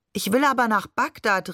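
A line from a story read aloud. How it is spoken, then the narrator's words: Calling out. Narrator (German): rief ich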